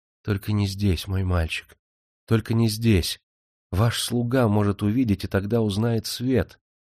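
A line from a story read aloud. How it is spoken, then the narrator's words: Reproachful whisper. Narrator (Russian): Она укоризненно шептала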